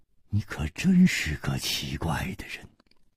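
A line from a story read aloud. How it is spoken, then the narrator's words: Sighing. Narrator (Chinese): 楚留香叹道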